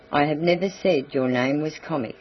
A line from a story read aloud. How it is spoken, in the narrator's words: he replied coldly